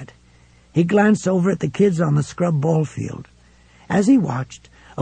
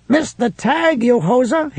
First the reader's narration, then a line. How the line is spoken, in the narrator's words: he shouted